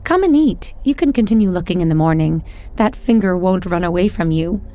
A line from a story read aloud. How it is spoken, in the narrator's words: the old woman cried out